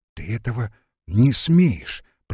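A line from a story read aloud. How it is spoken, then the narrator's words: Whispered. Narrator (Russian): прошептал Евангел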